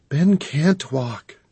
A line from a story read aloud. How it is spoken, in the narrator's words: she whispered